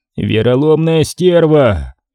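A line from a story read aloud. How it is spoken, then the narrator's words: Angry reply, big man. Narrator (Russian): Злобно ответил на это огромный лысый мужчина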